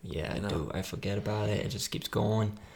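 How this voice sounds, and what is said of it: Weak put-on Brooklyn/Boston accent. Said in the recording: “the New York, like Brooklyn, Boston accent ... I know my accent sucks”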